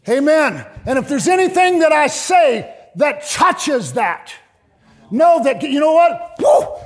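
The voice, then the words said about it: Loud, elevated preaching voice. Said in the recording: “I'm not screaming at you. I know my voice is elevated, but I'm not screaming at you.”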